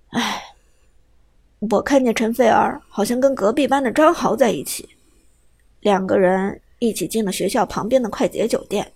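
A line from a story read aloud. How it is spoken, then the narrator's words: Hesitant sigh. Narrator (Chinese): 海龙叹了口气，犹豫了一下之后，还是说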